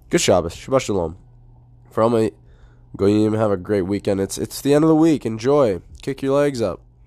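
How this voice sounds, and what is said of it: Raspy voice. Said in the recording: “you're gonna have to deal with raspy ... again”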